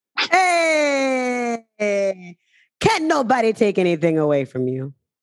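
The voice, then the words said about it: Put-on Caribbean accent. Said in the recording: “I don't know what accent that was... I'm an honorary Caribbean”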